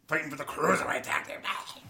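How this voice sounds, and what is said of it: Vince McMahon impression. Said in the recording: “I'm going to lose my voice if I keep talking like Vince”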